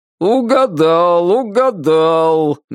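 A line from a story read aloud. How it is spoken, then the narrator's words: Joyless singsong. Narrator (Russian): невесело произнес нараспев хозяин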